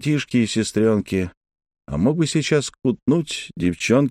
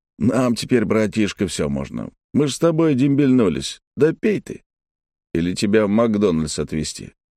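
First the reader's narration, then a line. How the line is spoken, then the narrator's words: Chuckling. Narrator (Russian): Сергей хохотнул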